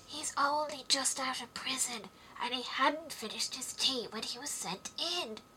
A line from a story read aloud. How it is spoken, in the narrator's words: Haya whispered to Alice